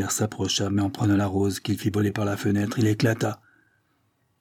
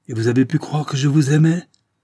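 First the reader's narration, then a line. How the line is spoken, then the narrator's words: Shouting. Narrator (French): s'écria-t-il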